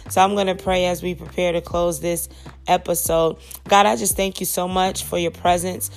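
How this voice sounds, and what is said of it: Voice slightly sick, under the weather. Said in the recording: “My voice is a little bit under the weather”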